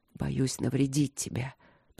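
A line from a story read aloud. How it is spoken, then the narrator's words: Hoarse rasp. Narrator (Russian): прохрипел он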